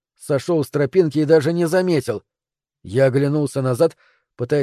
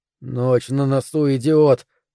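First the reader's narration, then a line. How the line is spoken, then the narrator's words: Hissed. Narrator (Russian): прошипел я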